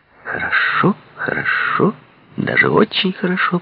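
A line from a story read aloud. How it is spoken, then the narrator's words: Purring. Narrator (Russian): промурлыкала она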